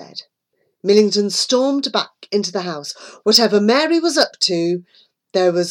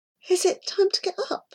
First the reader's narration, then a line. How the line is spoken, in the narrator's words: Mary asked sleepily